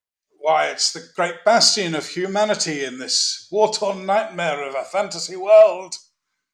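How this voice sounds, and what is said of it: Character voice resembling Gandalf. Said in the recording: “you sound quite a lot like Gandalf”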